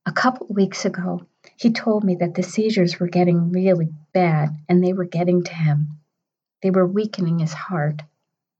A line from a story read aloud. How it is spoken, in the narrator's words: Her voice dropped to a whisper when she confided